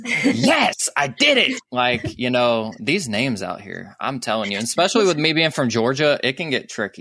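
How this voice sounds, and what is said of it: Slight Southern US accent. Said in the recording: “I got a little Southern accent going”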